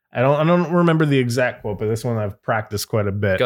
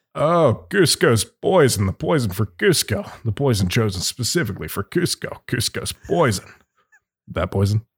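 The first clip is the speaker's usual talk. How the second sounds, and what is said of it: Kronk voice impression. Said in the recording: “let me do the Kronk voice ... That was so good”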